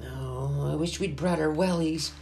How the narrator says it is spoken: groaned Amy

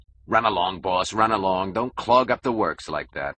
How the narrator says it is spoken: because he was afraid that he might say it, Mike growled

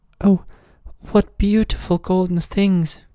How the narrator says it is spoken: Then she cried out

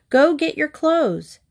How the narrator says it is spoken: she shouted

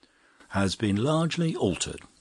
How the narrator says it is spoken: said the scientist gravely

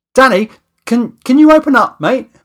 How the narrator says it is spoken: I shouted through the door

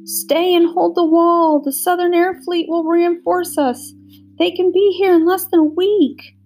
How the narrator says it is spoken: The Karelian girl, Saitha, … sobbing

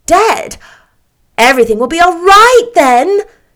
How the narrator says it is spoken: cried the rosy lady jubilantly

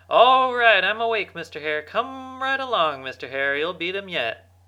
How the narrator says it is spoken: Fox called out

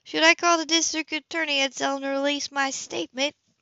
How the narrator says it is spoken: Bree called out when she didn't get an answer

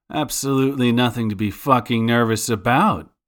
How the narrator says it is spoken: Gian bellowed

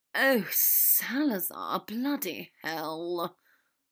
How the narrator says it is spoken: Draco groaned into Harry's ear

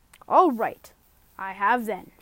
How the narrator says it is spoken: said Diggory in a much louder voice, like a boy who was so miserable that he didn't care who knew how he'd been on crying

